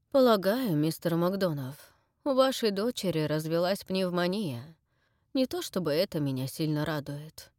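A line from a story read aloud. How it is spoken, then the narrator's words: Sighing doctor. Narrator (Russian): доктор сказал, вздохнув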